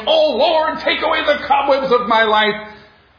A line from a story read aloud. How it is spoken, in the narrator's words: a young man who had heard this long enough shouted